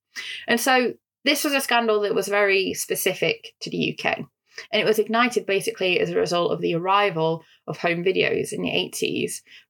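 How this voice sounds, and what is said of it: Northern English accent. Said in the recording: “I say video nasties in my northern accent”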